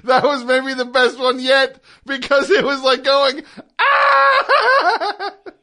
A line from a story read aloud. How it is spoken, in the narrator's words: He screamed at the last second